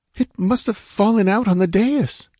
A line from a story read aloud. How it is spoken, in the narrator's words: stammered